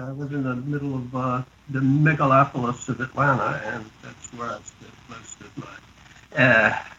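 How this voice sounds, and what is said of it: Heavy Georgia Southern accent. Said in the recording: “being from Georgia ... it gave me this heavy accent”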